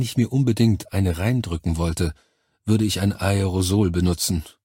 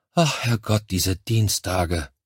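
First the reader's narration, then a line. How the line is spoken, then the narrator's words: Murmured. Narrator (German): Ich murmelte etwas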